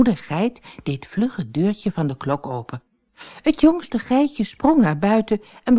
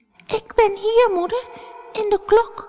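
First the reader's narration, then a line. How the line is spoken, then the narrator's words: Small frightened voice. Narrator (Dutch): het jongste geitje de stem van zijn moeder hoorde, zei hij met een angstig stemmetje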